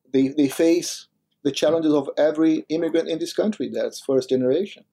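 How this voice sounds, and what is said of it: Foreign accent. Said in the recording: “I'm an immigrant myself, as you can notice by my accent”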